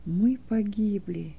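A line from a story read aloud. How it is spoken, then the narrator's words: Whispered. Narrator (Russian): прошептал Кай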